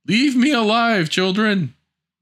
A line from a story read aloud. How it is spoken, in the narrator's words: he called out